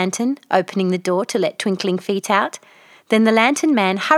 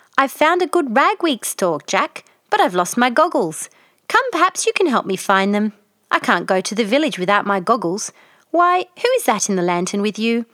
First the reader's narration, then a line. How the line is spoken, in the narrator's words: the jolly little witch called out